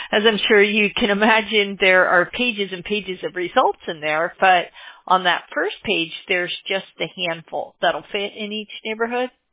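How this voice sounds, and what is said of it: Strained, fading voice. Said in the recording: “I'm losing my voice already”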